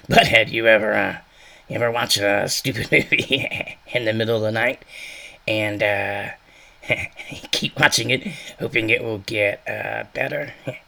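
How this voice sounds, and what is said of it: Bad imitation of cartoon character voice. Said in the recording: “a bad actor doing Beavis and a little bit of Butthead ... doing a bad imitation of Beavis's voice”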